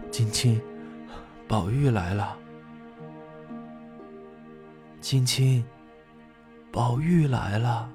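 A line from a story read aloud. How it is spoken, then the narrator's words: Soft, holding back tears. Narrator (Chinese): 宝玉这才忍住哭泣，轻声的说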